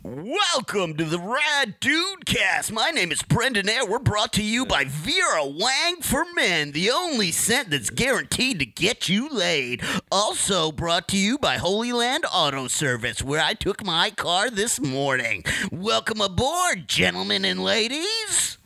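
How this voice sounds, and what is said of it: Announcer-style radio voice. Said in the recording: “my radio voice ... do your radio voice”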